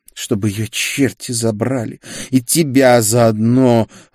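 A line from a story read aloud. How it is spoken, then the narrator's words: Disappointed growl. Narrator (Russian): разочарованно прорычала черноволосая сереброглазая Софии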